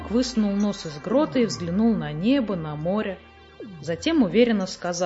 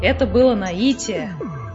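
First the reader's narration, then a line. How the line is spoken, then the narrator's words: Joyful announcement. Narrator (Russian): радостно сообщил Хемуль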